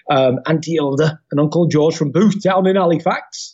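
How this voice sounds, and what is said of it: Put-on northern English accent. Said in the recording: “why I'm doing that accent. But anyway, that's a northern accent”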